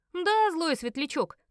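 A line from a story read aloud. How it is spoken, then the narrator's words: Shouting. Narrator (Russian): крикнул Оттер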